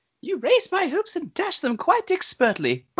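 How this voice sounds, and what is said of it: Imitated British little kid voice. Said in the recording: “your Tinny Tim impression ... Got to work on that ... you got a little ways to go ... Tinny Tim is hard, man, because you got to do a little kid, and he's British”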